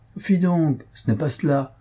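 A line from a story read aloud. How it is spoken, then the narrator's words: Plain. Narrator (French): répondit Waldorf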